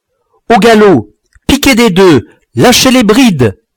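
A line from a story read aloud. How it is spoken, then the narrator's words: Shouting. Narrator (French): criai-je à mes camarades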